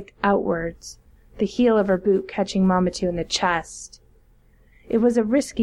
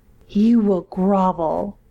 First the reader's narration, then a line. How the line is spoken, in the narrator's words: Marmatou snarled